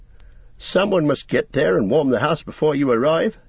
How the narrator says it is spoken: said Merry

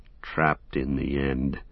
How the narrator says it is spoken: said Sam bitterly, his anger rising again above weariness and despair

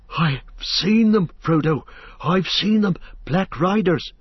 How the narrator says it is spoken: he gasped

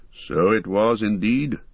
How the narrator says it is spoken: answered Elrond gravely

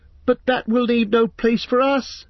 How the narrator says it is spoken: cried Pippin in dismay

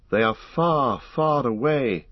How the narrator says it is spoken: he said sadly

